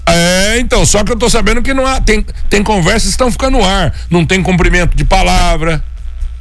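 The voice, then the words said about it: Shouting, indignant voice. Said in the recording (Portuguese): “Doutor, não grita. ... Ah, perdão, desculpa. Não, é que eu me indigno”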